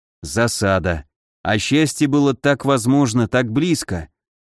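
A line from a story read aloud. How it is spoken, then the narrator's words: Mutter. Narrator (Russian): пробормотал я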